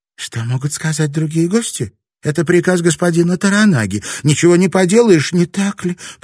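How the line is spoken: Babbling, hiding fear. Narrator (Russian): пролепетала Кику, скрывая страх

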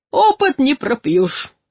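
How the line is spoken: Loud laughter. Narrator (Russian): расхохотался третий

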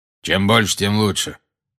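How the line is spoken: Grim. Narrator (Russian): мрачно проговорил Грюм

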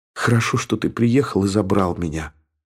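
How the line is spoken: Whisper. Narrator (Russian): прошептала она

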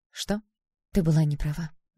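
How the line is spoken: Soft. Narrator (Russian): мягко сказала она

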